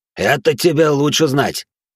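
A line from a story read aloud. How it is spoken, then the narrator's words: Snort. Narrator (Russian): хмыкнул Вира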